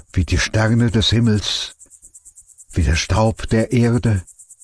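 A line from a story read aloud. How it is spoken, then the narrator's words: Quiet. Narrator (German): sagte er leise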